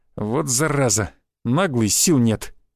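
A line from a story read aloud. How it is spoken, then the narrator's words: Snorted. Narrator (Russian): хмыкнул Шишаков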